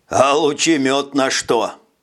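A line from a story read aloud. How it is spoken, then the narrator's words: Loud laughing. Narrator (Russian): Жак захохотал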